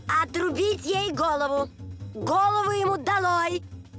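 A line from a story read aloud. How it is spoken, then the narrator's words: Shouting. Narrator (Russian): кричала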